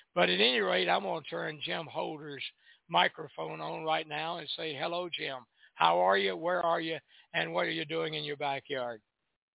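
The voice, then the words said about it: Crackly, hoarse voice from a cold. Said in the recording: “sorry for my voice today ... when I get a cold ... right now it's crackly. Very crackly. Sounds like a bunch of static”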